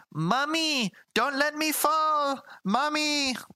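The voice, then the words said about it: Exaggerated stereotypical Spanish-accented child voice. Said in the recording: “like just the most stereotypical Spanish accent of all time ... how bad his voice acting was”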